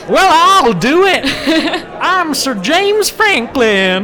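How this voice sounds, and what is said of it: Fake Southern US hick accent. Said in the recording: “the fake Georgian accent ... he's a sort of hick”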